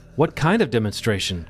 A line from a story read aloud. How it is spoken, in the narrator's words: Carl asked